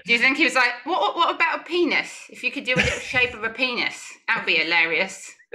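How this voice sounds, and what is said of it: Poor put-on Cockney English accent. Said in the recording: “You think that's what his accent sounds like ... more Downton Abbey than that ... than Cockney. Cockney. Sorry. It's terrible.”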